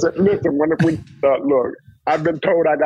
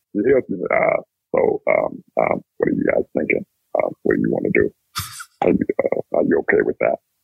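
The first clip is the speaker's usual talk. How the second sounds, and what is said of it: Deep heavy voice impression. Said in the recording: “I got a good impersonation of him ... we got that heavy-ass voice, you know, and he always had a deep voice whenever he talked to you”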